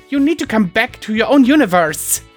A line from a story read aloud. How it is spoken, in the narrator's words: Sunset Shimmer snapped